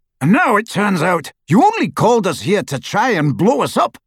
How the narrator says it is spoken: roared the Death Eater

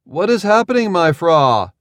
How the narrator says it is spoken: He cleared his throat and called out

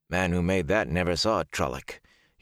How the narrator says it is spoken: Huron grumbled

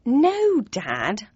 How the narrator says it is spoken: I said in an exasperated tone

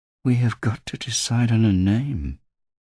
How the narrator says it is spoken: she says dreamily

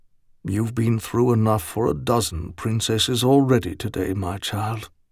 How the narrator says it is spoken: he said quietly

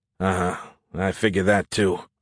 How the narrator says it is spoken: I said with a sigh so deep

